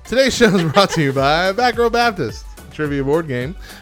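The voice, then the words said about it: Radio announcer voice. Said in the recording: “That should be my radio voice.”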